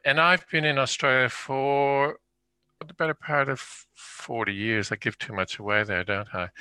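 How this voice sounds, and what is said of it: Canadian accent. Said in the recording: “I have an accent people might notice, and it's Canadian.”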